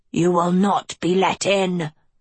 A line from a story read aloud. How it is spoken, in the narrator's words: the wolf thundered